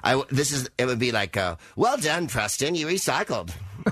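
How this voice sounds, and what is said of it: Bob the Builder character voice. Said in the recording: “I'm doing the voice. ... I am doing Bob the Builder”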